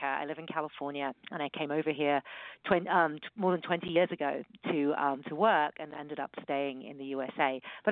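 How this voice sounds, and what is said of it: British accent. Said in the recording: “from my accent, you can hear that I'm British”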